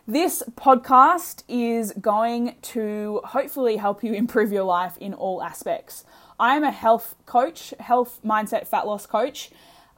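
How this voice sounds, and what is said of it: Broad Australian accent. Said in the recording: “my dulcet tones of my delicious Australian bogan accent”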